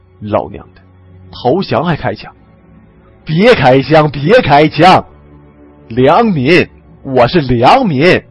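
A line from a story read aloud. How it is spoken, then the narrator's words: Low muttered cursing. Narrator (Chinese): 李存壮低声骂道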